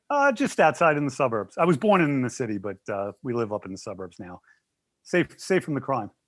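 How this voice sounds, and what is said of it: New York accent. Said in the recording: “You got the New York accent ... Doesn't he sound like a New Yorker?”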